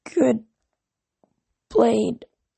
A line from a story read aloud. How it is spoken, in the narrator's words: croaked